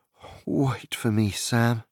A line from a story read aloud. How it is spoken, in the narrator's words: stammered